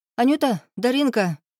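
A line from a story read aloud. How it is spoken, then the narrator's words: Overly cheerful shout. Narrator (Russian): чересчур бодро крикнула она в сторону зарослей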